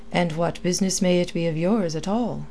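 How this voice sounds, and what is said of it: Marked Irish accent. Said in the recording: “with a marked Irish accent”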